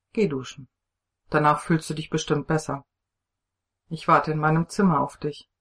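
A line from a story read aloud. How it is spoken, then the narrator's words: Calm command, man. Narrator (German): ordnete er ruhig an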